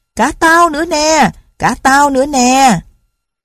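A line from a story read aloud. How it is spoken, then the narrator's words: Excited shout. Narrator (Vietnamese): Tửng cũng nhảy cỡn lên hét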